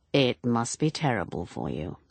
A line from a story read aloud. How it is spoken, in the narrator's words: said Lance gravely